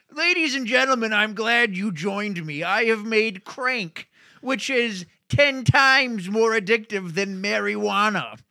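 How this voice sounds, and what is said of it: Man-At-Arms character voice impression. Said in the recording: “I will do Man at Arms as Senator Mendoza”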